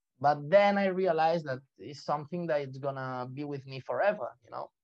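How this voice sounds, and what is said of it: Non-native English accent. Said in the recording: “they recognize where are you from always ... my accent ... my English accent”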